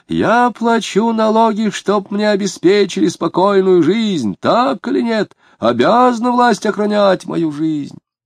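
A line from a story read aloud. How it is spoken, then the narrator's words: Furious shouting. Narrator (Russian): Стукнув кулаком по стулу, он заорал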